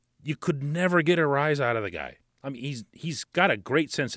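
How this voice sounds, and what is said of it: Usual voice. Nothing is said of it.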